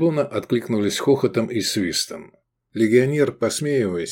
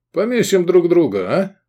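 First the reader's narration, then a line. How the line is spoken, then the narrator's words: Chuckling legionnaire. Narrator (Russian): Легионер хохотнул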